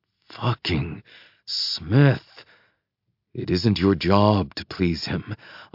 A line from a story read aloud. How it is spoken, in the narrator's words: I half growl